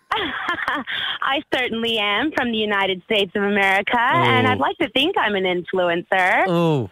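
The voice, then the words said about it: American accent, possibly exaggerated. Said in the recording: “Are you an American influencer? ... She's putting it on a lot ... Putting that on. ... Definitely fake, right?”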